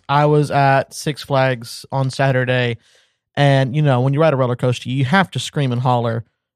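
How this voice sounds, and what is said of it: Hoarse, worn-out cracking voice. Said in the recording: “sorry for my voice. ... my voice might crack every now and again because it is flat out worn out.”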